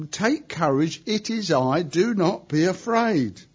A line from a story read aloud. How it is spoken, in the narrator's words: immediately cried out